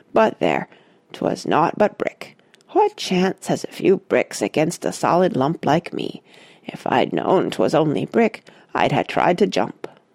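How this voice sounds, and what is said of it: Soft Devonian drawl. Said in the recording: “said the soft Devonian drawl”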